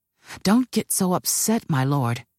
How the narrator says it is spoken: Aaron replied

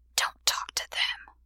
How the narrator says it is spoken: Zoot hissed

